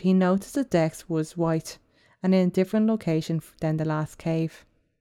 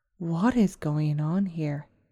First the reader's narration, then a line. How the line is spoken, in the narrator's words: Muttering under his breath